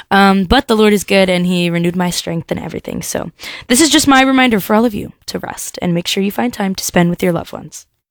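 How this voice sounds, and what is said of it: Slightly deeper, rough voice. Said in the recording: “as you can hear, my voice is a little deeper. I'm getting over a sore throat”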